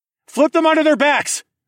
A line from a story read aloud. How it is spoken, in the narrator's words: I shouted above the cacophony of metal scraping against metal